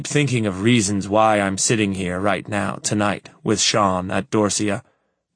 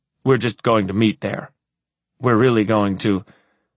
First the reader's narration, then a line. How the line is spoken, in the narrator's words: I falter